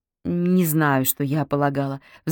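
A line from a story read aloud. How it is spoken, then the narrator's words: Sigh. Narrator (Russian): вздохнула Полина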